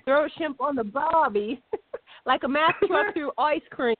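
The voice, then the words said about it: Imperfect put-on Australian accent. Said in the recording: “as many times as we do this in an Australian accent, you think I would have it down, but I don't yet”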